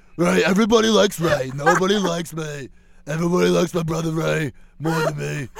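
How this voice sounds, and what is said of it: Imitates another person's voice. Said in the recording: “I can do a really good Brad Garrett.”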